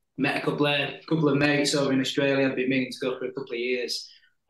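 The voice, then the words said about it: Slight Yorkshire English accent. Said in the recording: “Sheffield, England. Over in Yorkshire, so you might be able to tell with the little bit of the Yorkshire accent I've got left”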